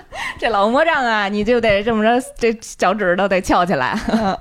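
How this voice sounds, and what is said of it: Beijing accent, heavy erhua. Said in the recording (Chinese): “北京口音，这儿化音还是挺重的”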